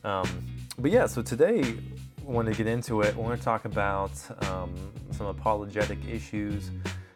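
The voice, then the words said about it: Voice sounds rough and unwell. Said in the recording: “You have to pardon my voice. I'm just getting over a little bit of a cold or something.”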